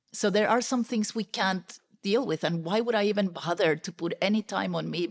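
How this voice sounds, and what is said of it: Speaks with a Latina accent. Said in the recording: “I'm not going to change my accent. I'm sorry. If you have a problem with an accent, for example, it's always going to be there. I've tried... I'm still Latina”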